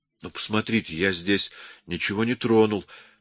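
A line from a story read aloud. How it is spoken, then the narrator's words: Hurried. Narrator (Russian): торопливо заговорил я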